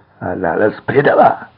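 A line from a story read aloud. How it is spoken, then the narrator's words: Wailing in pain, tearful. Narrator (Russian): завопил Вилли, у которого от боли выступили слезы на глазах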